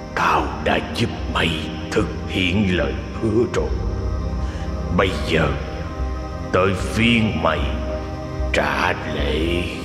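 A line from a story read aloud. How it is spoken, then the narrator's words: Sudden hoarse cold voice. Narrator (Vietnamese): Nó chợt cất cái giọng khàn khàn lạnh lẽo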